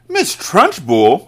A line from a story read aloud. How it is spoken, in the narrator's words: Matilda cried